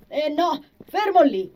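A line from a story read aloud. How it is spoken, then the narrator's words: Exclaimed. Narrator (Italian): L'amico gli corse dietro in ogni caso, esclamando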